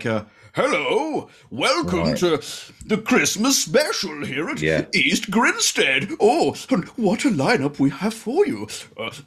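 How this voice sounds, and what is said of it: Santa Claus character voice. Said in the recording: “I came on as Santa in character.”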